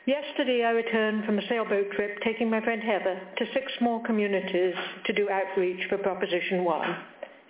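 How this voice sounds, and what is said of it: British accent. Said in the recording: “I've not lost my accent. I'm British by birth”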